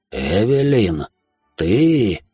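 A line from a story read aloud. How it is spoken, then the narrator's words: Whispered. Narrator (Russian): прошептал он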